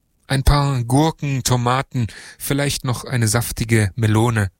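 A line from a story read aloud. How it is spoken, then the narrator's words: Plain. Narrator (German): sagte er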